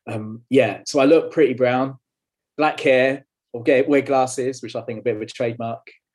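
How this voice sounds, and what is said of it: London-Essex English accent. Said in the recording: “born and bred in London, um, or where London hits Essex, actually, as you can probably tell by my accent.”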